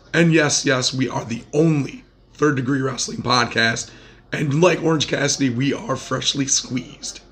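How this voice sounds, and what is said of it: Hoarse voice. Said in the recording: “I am your still very hoarse host”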